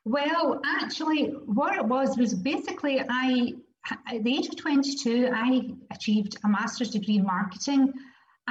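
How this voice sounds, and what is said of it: Unusual foreign accent. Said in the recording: “I'm not your usual guest. My accent is slightly unique.”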